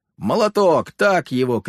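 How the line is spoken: Group shouting. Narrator (Russian): кричали наши соратники

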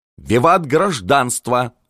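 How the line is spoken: Contrary yell. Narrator (Russian): заорал Жолобов противничая

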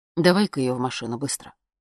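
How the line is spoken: Plain. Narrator (Russian): сказал папа

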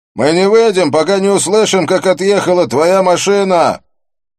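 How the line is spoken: Shouting. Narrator (Russian): прокричал я

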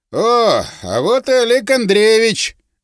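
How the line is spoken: Joyful exclamation. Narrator (Russian): радостно воскликнул он

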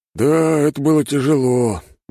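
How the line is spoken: Sighed. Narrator (Russian): вздохнул он

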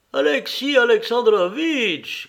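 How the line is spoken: Princess calling out. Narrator (French): cria la princesse Betsy

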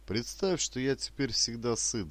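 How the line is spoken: Joyless laugh. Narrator (Russian): засмеялся, но очень невесело Ермак

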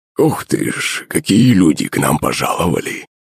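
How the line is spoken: Wheezy old man. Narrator (Russian): Просипел седой заросший дед

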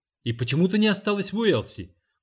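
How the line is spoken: Exclaimed. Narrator (Russian): воскликнул другой

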